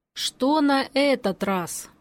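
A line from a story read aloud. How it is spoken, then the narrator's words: Tired question. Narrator (Russian): устало спросил Григор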